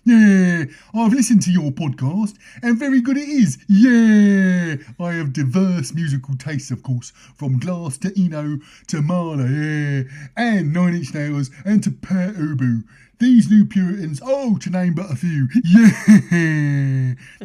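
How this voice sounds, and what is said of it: Imitation of Roland Rat's voice. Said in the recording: “that's not a great Roland Rat impression”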